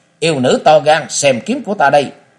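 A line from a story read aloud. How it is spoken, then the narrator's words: Loud shout from afar. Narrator (Vietnamese): người chưa tới đã cao giọng hét lên nói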